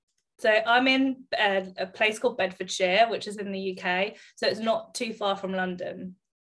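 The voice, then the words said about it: British English accent. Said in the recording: “obviously our listeners know that you have an accent”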